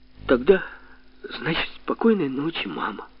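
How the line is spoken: Trembling voice. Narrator (Russian): сказал Женька дрогнувшим голосом

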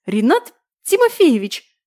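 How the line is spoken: Indignant embarrassed squeak. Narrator (Russian): возмущенно пропищала, чувствуя, как краснею

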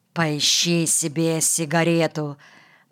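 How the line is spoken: Mumbling. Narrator (Russian): пробормотал Перзике

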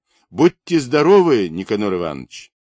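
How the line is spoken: Smiling shouts. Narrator (Russian): улыбаясь, кричали

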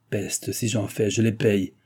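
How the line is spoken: Grumbling. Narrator (French): gronda le vicomte

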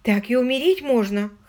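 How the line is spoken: Whimpering woman. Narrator (Russian): хныкала она

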